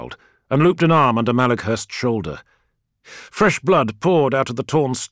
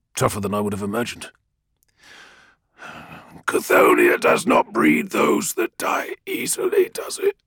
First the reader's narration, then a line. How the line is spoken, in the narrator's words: Malakhurst rasped